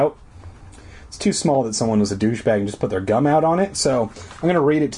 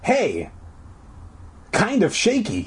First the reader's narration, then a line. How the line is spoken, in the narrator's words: he cried